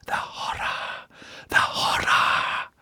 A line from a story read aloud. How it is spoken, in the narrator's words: Kurtz whispering